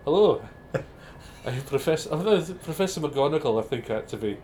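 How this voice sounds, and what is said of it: Put-on Scottish professor accent. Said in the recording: “I can do a Scottish professor accent ... that's not bad”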